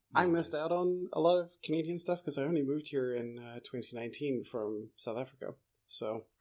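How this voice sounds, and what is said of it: Hard-to-place South African accent. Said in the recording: “I should have uh, figured from your accent that you weren't from here ... I've always had this weird accent where even when I was growing up in South Africa, people were like, "Are you from England?" ... and then I was in England, and they were like, "Oh, are you from America?" ... you have an accent, but I can't quite tell where it's from”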